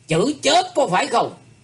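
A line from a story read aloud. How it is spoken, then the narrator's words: Stern emphatic tone. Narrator (Vietnamese): Âu Dương Văn Tề gằn giọng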